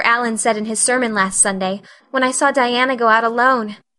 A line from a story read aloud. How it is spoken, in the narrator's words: she said mournfully